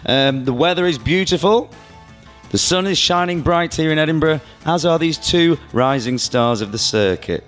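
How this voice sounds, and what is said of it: Croaky, hoarse voice. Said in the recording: “My voice is getting croakier, but I do think it gives me quite a sexy little twang”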